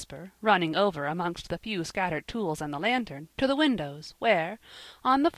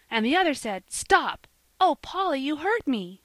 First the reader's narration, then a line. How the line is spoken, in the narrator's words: she cried, as Polly ... held her so tightly she could hardly breathe